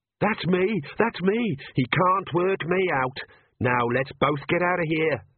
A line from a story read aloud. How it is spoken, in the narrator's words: yelled Perdita